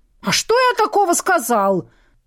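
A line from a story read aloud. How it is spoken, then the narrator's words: Strained high-pitched shriek. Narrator (Russian): Надрывно на высокой ноте взвизгнул Виктор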